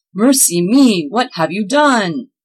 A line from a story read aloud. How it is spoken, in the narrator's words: Claus cried out